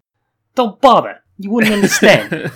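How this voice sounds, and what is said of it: Put-on Brooklyn accent. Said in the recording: “do the cat with like a New York or like a Brooklyn accent”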